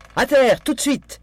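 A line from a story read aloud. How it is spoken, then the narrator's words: Yelled. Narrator (French): hurla Daisy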